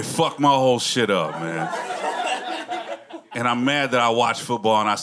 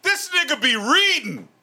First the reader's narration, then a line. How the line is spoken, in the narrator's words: one of them yells out